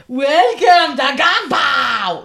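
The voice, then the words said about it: Loud imitation of a waiter. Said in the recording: “Really loud. ... Don't do the voice.”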